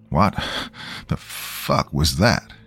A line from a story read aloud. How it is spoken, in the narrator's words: Daniel asked, panting